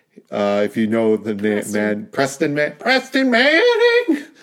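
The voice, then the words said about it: Poor imitation of high-pitched voice. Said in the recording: “That was a terrible impression... His voice is really weird and distinctive... It's very high.”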